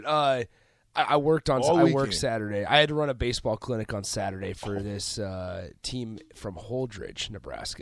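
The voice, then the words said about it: Hoarse, worn-out voice. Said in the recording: “That's partially why my voice is gone.”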